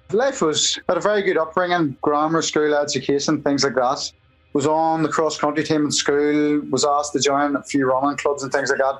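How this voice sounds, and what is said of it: Thick regional accent. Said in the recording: “It doesn't sound like you're Armagh with that thick accent”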